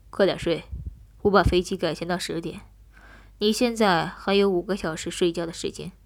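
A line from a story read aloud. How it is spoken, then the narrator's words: Cold. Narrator (Chinese): 冷声道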